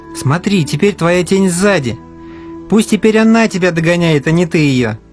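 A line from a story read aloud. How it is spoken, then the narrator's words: Laughing. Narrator (Russian): засмеялся Алеша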